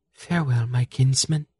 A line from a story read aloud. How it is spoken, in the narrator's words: she said softly